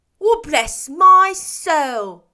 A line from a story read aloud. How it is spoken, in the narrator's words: cried Fred